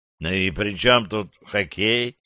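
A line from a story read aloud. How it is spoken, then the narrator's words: Tired reminder. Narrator (Russian): устало напомнил док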